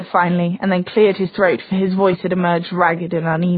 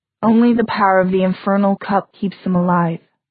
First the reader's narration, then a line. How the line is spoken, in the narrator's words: said Gia, her voice throbbing with sorrow